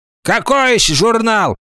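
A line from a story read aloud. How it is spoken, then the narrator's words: Angry. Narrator (Russian): сердито сказала тетя Вася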